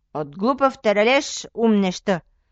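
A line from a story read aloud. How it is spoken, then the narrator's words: Shouting. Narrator (Bulgarian): викнал средният брат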